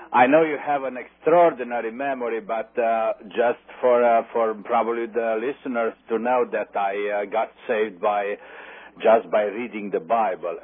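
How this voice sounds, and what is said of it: Speaks with a noticeable accent. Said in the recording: “your accent”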